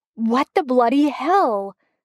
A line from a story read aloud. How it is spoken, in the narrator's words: the blonde guy shouts, and his voice comes out thick and slurred